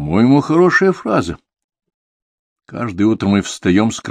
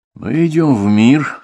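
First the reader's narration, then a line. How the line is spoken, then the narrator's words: Sigh. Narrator (Russian): вздохнул я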